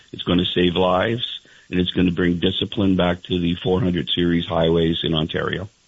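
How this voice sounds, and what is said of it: Frustrated, angry tone. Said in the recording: “our frustration. I'm sure you can hear it in my voice ... I do hear it in your voice. I hear more than frustration. I hear some anger in your voice.”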